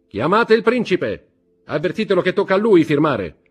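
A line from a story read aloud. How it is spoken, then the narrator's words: Shouting. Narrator (Italian): gridò Danglars ad un cameriere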